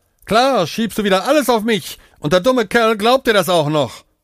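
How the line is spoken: Panting. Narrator (German): keuchte Aman

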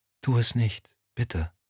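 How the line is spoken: Whispering. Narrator (German): Lorna wiederholte flüsternd

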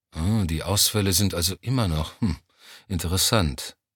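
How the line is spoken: Absent-minded murmur. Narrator (German): murmelte Johnny abwesend

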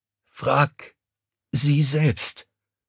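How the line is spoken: Croaking. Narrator (German): krächzte

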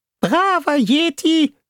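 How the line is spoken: Squeaky helium voice. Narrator (German): sagte Fishboy in seiner piepsigen Heliumstimme

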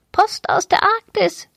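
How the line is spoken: Croaking parrot voice. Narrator (German): krächzte der kleine Papagei

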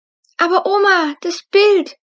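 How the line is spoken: Calling out. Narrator (German): rief Luna

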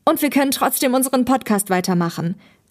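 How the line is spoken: Called out. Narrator (German): rief Thomas

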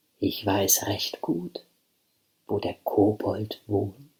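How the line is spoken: Gentle voice. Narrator (German): sagte sie mit sanfter Stimme

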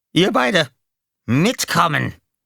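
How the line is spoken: Barked order. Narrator (German): bellte

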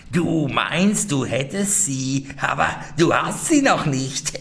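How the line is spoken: Old woman, venomous laugh. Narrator (German): die Alte lachte giftig und sprach

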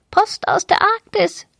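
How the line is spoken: Small parrot croaking. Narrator (German): krächzte der kleine Papagei

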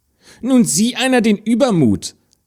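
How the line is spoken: Stepsister calling out. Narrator (German): rief die Stiefschwester

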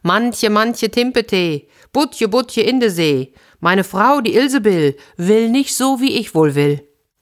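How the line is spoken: Call. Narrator (German): rief

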